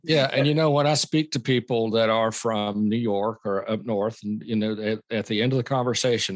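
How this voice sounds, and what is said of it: Southern American accent. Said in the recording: “I sure do love your Southern accent ... I'm sure I have a Southern accent to those up north or out west”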